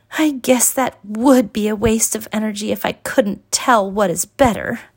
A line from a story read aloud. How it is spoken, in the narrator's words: moaned Evita